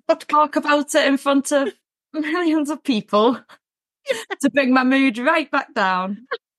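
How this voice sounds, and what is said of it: Liverpool Scouse accent. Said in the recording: “a Liverpool accent ... the Scouse accent”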